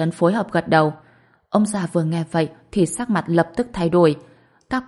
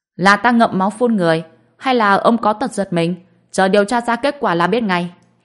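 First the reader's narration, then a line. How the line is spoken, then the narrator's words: Old man's angry scolding. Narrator (Vietnamese): Ông già nghe vậy, dậm chân quát mắng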